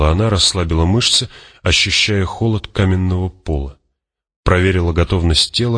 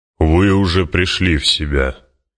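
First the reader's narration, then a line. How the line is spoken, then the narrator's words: Deep booming bass. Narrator (Russian): прогудел густой бас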